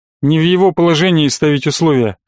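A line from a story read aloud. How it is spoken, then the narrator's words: Snorting. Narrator (Russian): хмыкнул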